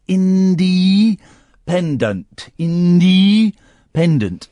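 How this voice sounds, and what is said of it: Says a word in a special voice. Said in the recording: “saying it in that special voice”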